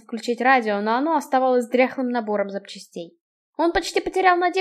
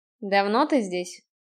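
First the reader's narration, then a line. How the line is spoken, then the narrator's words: Cold question. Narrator (Russian): холодно спросил он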